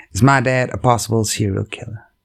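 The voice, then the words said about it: Put-on American accent. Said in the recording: “I'm going to try and do my best American accent for the story.”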